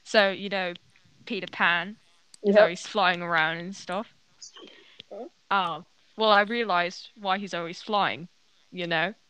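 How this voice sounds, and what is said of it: Australian accent. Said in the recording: “Yeah, got an Australian accent.”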